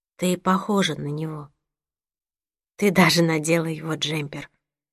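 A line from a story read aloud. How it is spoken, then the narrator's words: Quiet. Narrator (Russian): тихо добавила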